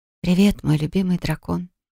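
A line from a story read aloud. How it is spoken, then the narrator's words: Teasing whisper. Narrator (Russian): прошептала я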